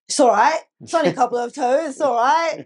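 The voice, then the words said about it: Imitates another person's voice. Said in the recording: “that was a rubbish impression of Leo”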